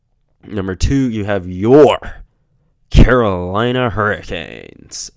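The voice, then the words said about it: Imitates another person's voice. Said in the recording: “That was a terrible Wade Minter impression.”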